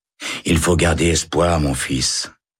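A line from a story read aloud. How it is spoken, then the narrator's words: Sighing chaplain. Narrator (French): soupire l'aumônier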